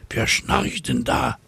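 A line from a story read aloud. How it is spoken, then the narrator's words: Whisper. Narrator (German): flüstert eine Cäcilie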